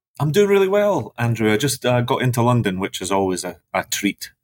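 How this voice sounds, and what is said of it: Scottish accent. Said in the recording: “I have a Scottish accent ... that's probably why I sound a bit weird ... you can still get the Scottish accent”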